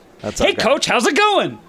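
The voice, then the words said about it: Upbeat impersonation of the host. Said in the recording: “your impersonation ... I love how I have an upbeat personality, and that's mocked.”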